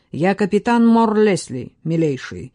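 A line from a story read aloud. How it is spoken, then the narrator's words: Growl. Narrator (Russian): прорычал Коннелл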